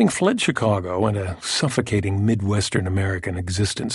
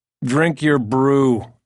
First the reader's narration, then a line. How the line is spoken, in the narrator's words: Jor snaps